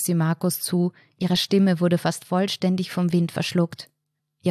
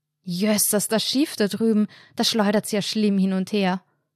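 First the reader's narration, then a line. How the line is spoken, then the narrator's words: Loud bellow. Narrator (German): brüllte Anna, um sicherzustellen, dass Markus ihre Worte diesmal hören konnte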